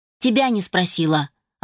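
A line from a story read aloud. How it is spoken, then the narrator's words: Snapping retort. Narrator (Russian): огрызнулась девушка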